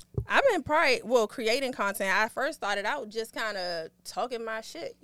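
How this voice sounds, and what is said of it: Distinct local regional accent. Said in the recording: “I know this accent. She got to be from the crib... This accent is too like, distinct not to be from the crib.”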